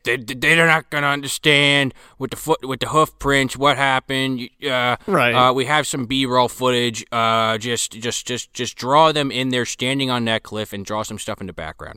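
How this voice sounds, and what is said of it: Gruff cigar-chomping executive voice. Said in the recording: “doing this voice for the cigar chomping executive ... It's more like this.”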